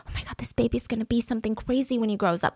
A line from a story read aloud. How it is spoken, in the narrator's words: there were like whispers